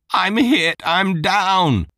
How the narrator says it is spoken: Zayden shouted

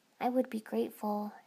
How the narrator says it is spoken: I murmured politely

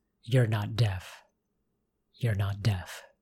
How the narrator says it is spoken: held him close to her, whispering

